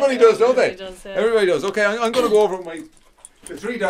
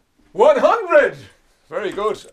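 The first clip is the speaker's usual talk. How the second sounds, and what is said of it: Silly put-on English accent. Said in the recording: “that silly English accent”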